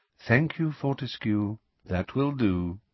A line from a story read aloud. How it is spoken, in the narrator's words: said Dumbledore softly